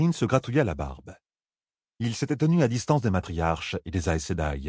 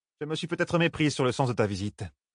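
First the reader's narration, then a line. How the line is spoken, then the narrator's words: Curt, dry retort. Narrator (French): lâcha sèchement Souline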